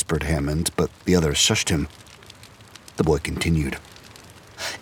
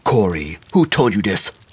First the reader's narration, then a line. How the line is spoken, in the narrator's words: snapped St